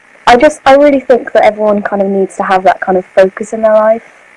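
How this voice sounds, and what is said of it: Stereotypical English accent. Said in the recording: “England! ... Literally stereotypical accent.”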